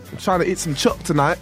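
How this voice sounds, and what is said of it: Attempted Australian accent sounding English. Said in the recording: “See how good my accent's getting, though? ... you sound so English ... It's more English than Australian.”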